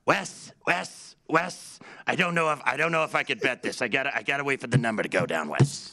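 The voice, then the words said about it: Imitates another person's voice. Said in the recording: “That was your Jeff Parles impression? ... It's a really good Parles impression.”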